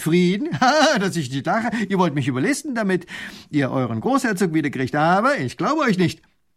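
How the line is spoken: Scornful laughing. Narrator (German): lacht der Leutnant

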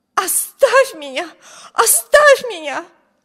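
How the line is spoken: Wild scream. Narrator (Russian): Дико закричала Эми

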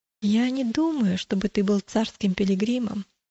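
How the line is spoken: Plain. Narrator (Russian): ответил христианин

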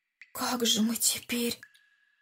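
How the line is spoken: Whispered. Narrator (Russian): шепотом сказал Андрей

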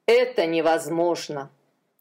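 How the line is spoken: Sighed. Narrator (Russian): Адонирам вздохнул

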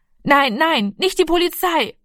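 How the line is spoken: Calling out. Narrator (German): rief er

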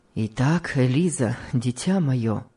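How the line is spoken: Grim. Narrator (Russian): мрачно сказал ей муж

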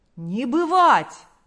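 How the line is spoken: Crowd shouting in unison. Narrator (Russian): закричали все в один голос

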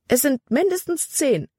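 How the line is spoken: Exclaiming. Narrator (German): rief sie aus

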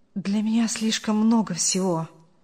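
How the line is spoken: Muttering young man. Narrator (Russian): пробормотал молодой человек

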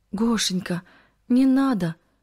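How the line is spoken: Pleading. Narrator (Russian): взмолилась Кристина

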